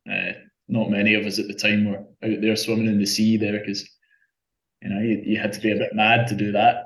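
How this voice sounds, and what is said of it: Scottish accent. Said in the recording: “as you might be able to tell from my accent, I'm, I'm not from here in Australia. I, I, I grew up in Scotland.”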